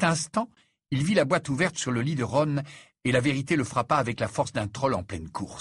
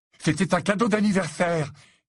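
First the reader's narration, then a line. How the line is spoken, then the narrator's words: Crying out. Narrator (French): s'écria Ron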